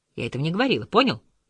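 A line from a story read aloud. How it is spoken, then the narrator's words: Angry, curt. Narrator (Russian): Зло бросила Дезире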